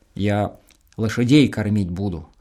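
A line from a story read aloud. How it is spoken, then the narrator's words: Calm. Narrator (Russian): спокойно объяснил Чук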